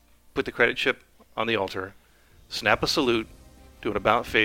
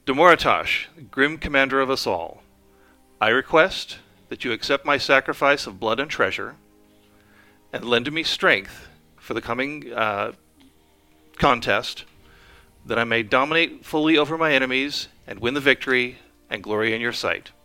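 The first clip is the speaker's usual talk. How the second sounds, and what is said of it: Firm, loud declamatory voice. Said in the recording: “loudly, or well, in a firm voice,”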